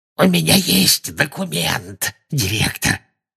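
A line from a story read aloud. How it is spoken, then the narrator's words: Hoarse. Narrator (Russian): хрипло сказал он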